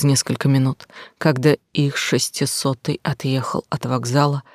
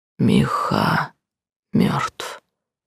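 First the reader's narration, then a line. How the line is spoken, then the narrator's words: Smiling whisper. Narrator (Russian): прошептал Габриэль, все еще улыбаясь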